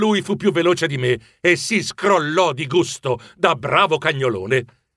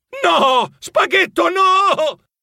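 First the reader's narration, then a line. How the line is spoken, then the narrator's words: Shrieking. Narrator (Italian): strillando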